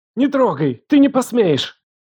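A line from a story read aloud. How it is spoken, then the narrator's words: Desperate shout. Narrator (Russian): Выкрикнула с отчаянием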